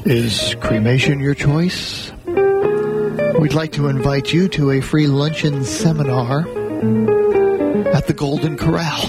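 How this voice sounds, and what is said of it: Solemn funeral director voice. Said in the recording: “get in my funeral director voice”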